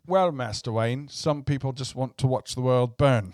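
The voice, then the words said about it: Good British-accented actor impression. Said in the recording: “that's a nice Michael Caine ... I wish I could get the Brit accent going”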